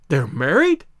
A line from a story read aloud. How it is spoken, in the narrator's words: I gasped